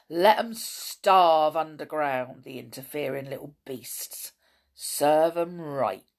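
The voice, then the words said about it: Cruel, harsh character voice. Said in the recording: “in a cruel voice.”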